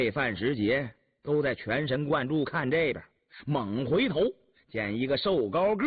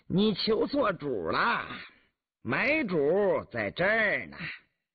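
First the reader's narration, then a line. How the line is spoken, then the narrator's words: Giggling. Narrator (Chinese): 身后一个人咯咯的笑道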